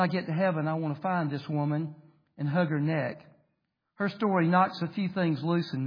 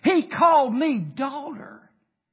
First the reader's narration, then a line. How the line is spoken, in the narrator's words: she screams at the top of her lungs